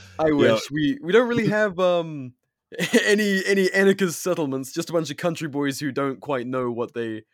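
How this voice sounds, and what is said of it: British accent with American influence. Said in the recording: “I live with an American woman now and have done for years, and I've also so my accent is fucked. You'd be correct in pointing that out.”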